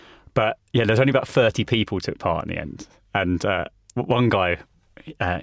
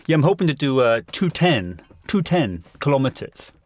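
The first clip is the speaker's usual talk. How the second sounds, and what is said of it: Put-on French accent. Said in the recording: “that was a really good French accent”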